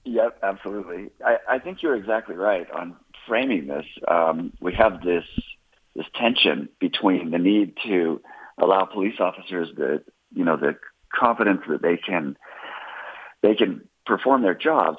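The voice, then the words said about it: Croaky voice from a cold. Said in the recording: “I'm getting over a cold, so I sound a bit like a frog”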